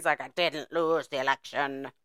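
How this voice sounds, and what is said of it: Imitates another person's voice. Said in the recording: “Look, I have an amazing Trump voice. ... That was the best Trump impersonation ... Sounds like an alien.”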